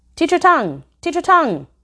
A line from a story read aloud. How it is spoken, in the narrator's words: Amanda suddenly blurted out once, a slight girl